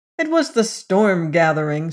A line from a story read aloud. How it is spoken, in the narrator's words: snapped Sime